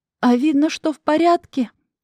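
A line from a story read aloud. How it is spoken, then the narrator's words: Grimacing moan. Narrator (Russian): Простонала эта ненормальная, сморщившись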